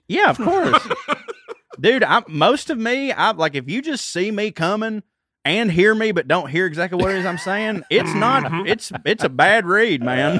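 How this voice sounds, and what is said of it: Chickamauga Southern regional accent. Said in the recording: “That's that Chickamauga way. ... hearing it in my accent is bad enough ... it's still going to have my accent ... when you say kvetch with that accent”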